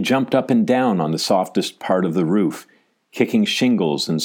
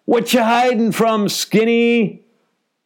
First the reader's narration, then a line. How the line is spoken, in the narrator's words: pausing in between to holler